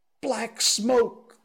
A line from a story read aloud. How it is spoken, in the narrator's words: the voices cried